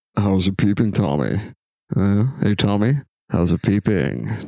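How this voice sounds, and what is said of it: Imitates another person's voice. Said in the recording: “Philip Seymour Hoffman pops over the back and he's just like,... I hate that impersonation.”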